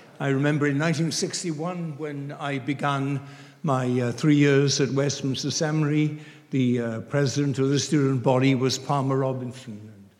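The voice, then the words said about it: Welsh accent. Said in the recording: “you're now hearing a Welsh accent”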